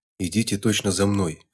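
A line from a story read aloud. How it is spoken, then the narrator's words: Woman whispering. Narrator (Russian): зашептала женщина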